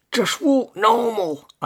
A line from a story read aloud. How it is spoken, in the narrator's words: muffled pants say angrily